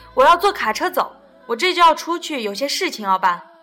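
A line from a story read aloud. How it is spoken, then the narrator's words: Shouting. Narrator (Chinese): 妈，罗莉喊道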